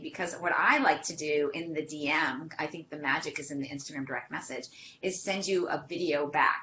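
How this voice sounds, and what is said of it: Boston accent. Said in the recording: “hear my voice, and either you like my Boston accent or you don't”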